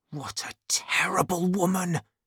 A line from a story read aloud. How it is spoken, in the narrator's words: he whispered